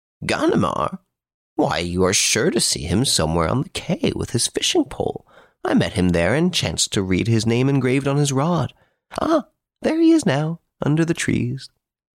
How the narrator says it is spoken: the writer of the article, who exclaimed

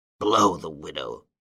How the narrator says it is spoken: growled

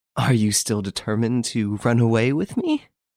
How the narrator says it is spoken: asked with a laugh

